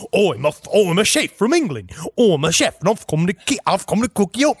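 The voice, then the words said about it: Put-on English chef accent. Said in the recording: “That's a great accent.”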